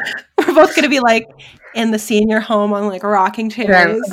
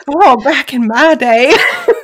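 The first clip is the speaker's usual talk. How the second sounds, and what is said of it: Put-on Southern accent. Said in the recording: “I have a southern accent all of a sudden.”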